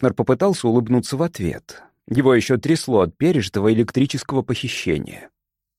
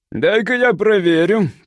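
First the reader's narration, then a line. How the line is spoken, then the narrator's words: Grumbling. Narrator (Russian): проворчал управляющий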